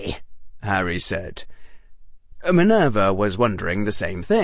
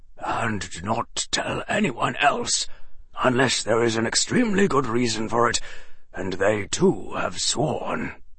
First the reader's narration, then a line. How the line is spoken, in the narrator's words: Dumbledore said gravely